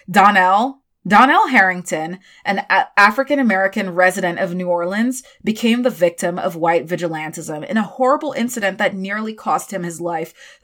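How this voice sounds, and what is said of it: Attempted American accent. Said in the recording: “I'm trying to say this in an American accent and I don't know if it's coming out okay.”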